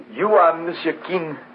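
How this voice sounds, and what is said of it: French accent. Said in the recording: “He's got a French accent”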